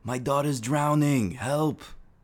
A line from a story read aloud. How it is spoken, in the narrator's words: we heard a woman screaming